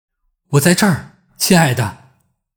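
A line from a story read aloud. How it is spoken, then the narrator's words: Loud answer. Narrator (Chinese): 他再一次大声回答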